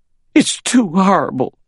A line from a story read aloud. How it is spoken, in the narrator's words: she cried